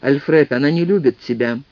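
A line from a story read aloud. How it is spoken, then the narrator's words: Forced calm. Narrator (Russian): как мог спокойно сказал Джек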